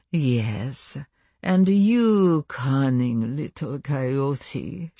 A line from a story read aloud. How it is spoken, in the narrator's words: she purred affectionately